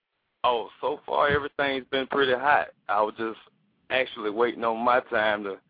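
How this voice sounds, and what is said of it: Deep voice, country-sounding accent. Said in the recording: “That deep, sexy voice ... you sound country as heck.”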